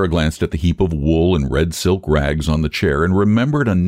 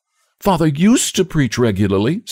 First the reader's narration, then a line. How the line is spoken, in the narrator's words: said the girl eagerly